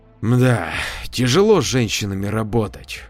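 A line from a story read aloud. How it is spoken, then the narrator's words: Sigh. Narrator (Russian): вздохнул Валерий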